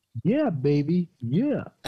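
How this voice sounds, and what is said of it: Poor Austin Powers impression. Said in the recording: “your best Austin Powers impression ... That was shitty, dude.”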